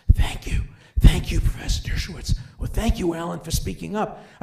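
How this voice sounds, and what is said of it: Hushed, whispering voice. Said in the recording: “in a hushed voice ... Why are you whispering?”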